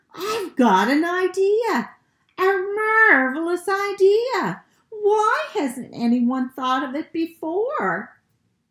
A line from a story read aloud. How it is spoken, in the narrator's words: suddenly Father Rabbit shouted